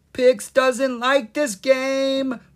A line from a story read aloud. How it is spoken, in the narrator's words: Pix cried